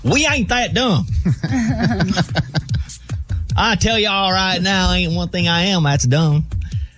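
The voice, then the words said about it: Exaggerated Southern accent. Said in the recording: “if you have a southern accent ... I can just keep rolling with this bit”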